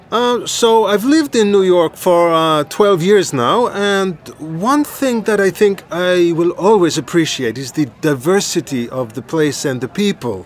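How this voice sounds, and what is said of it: English with a foreign accent. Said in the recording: “my English is pretty good, but ... for having a foreign accent”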